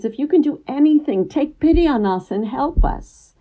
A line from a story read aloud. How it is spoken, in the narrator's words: The father pleads